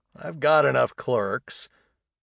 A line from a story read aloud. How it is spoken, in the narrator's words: with a chuckle